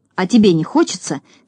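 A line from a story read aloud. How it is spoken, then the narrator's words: Angry grumble. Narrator (Russian): сердито проворчал Торопышка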